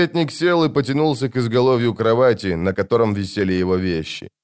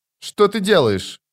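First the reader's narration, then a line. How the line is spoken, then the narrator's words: Sharp, indignant. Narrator (Russian): резко и возмущенно спросила она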